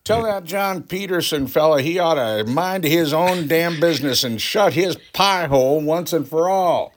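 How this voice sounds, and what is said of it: Put-on Southern US accent. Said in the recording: “Catching a southern accent. ... Why are we doing the southern accents?”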